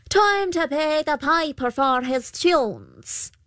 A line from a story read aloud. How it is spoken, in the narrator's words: The Pooka called out